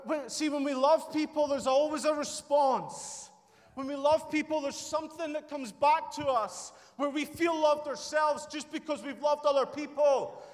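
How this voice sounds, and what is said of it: Shouting with a sore, strained voice. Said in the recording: “my voice is getting sore, but I need to shout”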